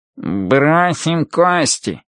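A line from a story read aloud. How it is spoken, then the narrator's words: Nasal voice. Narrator (Russian): предлагает гнусавый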